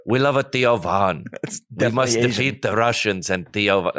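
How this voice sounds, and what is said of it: Poor attempt at Ukrainian accent. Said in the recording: “I'm not doing a Ukrainian accent. ... That's not even close. ... You're still kind of Asian.”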